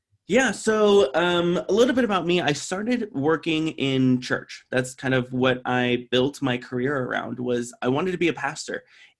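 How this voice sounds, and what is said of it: American accent. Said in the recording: “my most American accent ever... Be as American as you can be. We're into the accent.”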